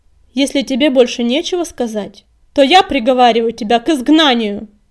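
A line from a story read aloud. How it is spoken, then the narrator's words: Harsh, strange announcement. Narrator (Russian): объявила предводительница, и голос ее прозвучал незнакомо и резко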